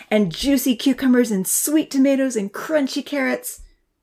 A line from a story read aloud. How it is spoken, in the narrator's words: Santa laughed